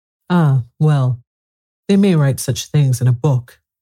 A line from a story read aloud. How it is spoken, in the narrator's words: Humpty Dumpty said in a calmer tone